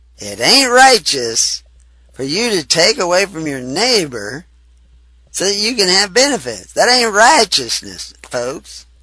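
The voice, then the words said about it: Exaggerated Southern American accent. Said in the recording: “That's my southern accent. ... That word lends itself to a southern accent. ... I can use a southern accent because I was raised in Texas.”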